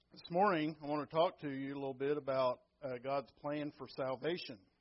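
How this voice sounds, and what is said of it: Strained, weak voice. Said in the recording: “My allergies have made that a necessity. My voice is not very good”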